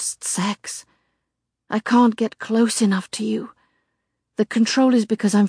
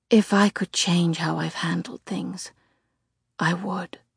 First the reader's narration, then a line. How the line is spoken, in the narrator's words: he whispers